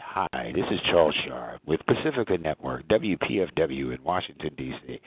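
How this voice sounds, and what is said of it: Announcer-style radio voice. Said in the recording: “I had a radio voice.”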